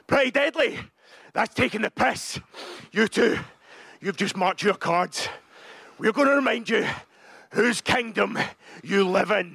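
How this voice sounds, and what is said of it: Thick Scottish accent. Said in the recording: “The thick Scottish accent.”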